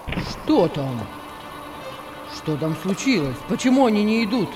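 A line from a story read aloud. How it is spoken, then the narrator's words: Irritated exclamation. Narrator (Russian): раздраженно воскликнул Петр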